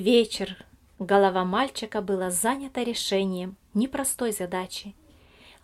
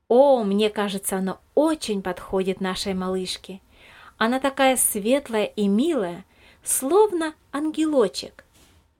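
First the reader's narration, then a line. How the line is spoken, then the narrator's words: Joyful agreement. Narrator (Russian): радостно согласилась Елизавета Михайловна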